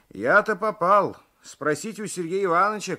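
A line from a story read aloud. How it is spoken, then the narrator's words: Shout. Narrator (Russian): кричал Алексеев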